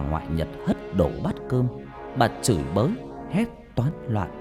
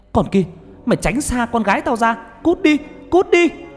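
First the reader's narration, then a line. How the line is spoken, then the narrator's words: Grandmother's sudden scream. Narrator (Vietnamese): Bà ngoại của Nhật chợt bà hét lên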